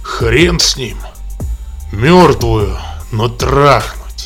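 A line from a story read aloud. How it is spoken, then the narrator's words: Growling. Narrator (Russian): рычал улыбака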